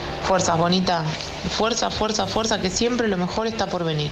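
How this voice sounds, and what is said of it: Pretty Argentine Spanish accent. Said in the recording (Spanish): “con ese acento tan bonito, ese acento argentino”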